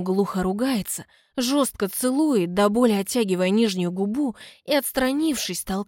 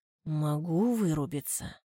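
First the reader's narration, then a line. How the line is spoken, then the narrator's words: Quiet warning. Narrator (Russian): предупреждает тихо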